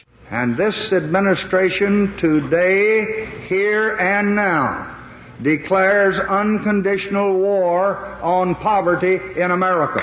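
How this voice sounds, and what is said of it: Lyndon Johnson's Texas Hill Country accent. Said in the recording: “Johnson in his inimitable Texas Hill Country accent”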